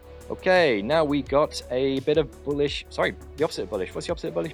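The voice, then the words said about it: English accent. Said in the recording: “I have this quintessential English accent”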